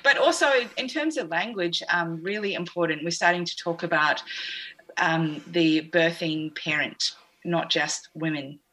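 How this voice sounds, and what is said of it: New Zealand accent. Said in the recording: “I think that's my New Zealand accent.”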